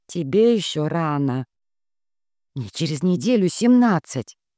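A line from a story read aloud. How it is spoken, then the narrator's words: Offended hiss. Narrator (Russian): Обиженно прошипела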